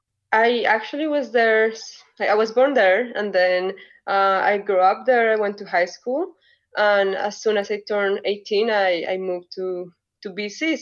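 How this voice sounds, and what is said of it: Colombian accent in English. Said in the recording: “this beautiful accent ... I am originally from Colombia, from the capital, Bogota.”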